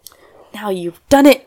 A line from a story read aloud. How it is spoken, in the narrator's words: cried Sally